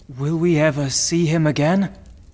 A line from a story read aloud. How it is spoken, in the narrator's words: asked Maximilian sadly